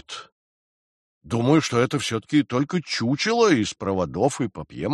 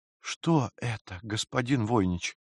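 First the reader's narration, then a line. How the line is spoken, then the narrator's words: Barely audible. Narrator (Russian): еле слышно произнес Джейсон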